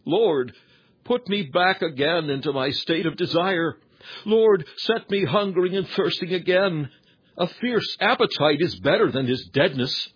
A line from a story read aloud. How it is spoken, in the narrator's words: have had to lament insensibility and lukewarmness, you have cried